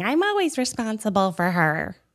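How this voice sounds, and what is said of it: Poor impression of speaker's mom. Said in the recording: “That's a horrible impersonation of my mom.”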